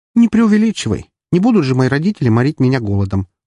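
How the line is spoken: Snorted while yawning. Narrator (Russian): фыркнула она, заразительно зевая

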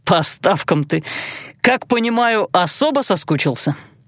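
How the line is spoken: Skeptical snort. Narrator (Russian): Эйландир хмыкнул

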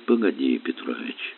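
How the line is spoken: Quiet. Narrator (Russian): тихо сказал Горелов

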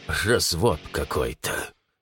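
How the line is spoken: Gruff mutter. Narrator (Russian): буркнул он

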